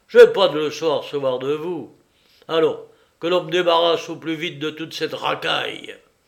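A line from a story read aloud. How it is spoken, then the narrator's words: Constable roaring. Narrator (French): rugit le constable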